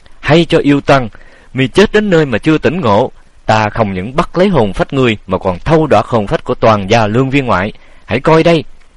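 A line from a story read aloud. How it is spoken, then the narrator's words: Frightened, blustering shout. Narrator (Vietnamese): bủng rủng tay chân, nhưng cũng làm già mà thét lên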